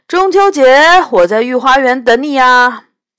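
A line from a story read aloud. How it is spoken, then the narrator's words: Shouting after someone. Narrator (Chinese): 杨永乐对着他的背影大喊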